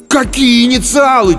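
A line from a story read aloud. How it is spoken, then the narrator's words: Almost shouting. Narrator (Russian): чуть ли не крикнул я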